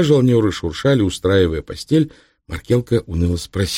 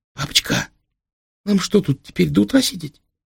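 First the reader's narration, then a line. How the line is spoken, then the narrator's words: Squeak from below. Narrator (Russian): Снизу пискнул Истомка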